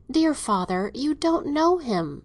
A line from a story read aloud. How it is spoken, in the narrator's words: said Catherine, in a voice so timidly argumentative